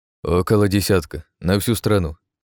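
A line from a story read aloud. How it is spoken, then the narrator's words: Soldier's smirking reply. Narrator (Russian): хмыкнул в ответ военный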